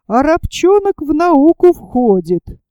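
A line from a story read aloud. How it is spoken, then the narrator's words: Cheerful laughing remark. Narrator (Russian): весело смеялись, смеялись и матросы, и замечали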